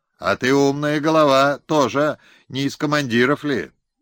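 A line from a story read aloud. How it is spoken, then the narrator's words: Shouted. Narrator (Russian): выкрикнул он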